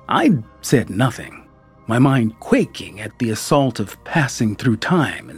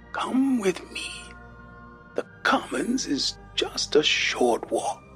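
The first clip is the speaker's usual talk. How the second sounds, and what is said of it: Thin papery old man's voice. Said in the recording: “in a papery thin voice”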